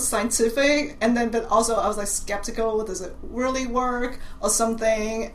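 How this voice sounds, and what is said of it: Mixed Cantonese, British and American accent. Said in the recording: “I have a Cantonese accent... my accent is kind of a combination of Cantonese and British English... a combination of American English and American accent, like Chinese accent, and like British accent”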